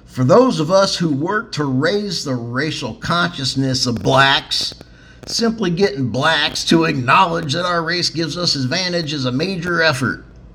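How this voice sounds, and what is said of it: Put-on Southern American accent. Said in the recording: “I'll even try to do a southern accent.”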